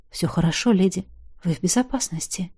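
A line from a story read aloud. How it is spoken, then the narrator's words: Quiet. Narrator (Russian): тихо сказал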